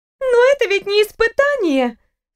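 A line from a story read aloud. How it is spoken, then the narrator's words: Accusing exclamation, young woman. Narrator (Russian): с нотками обвинения в голосе воскликнула девушка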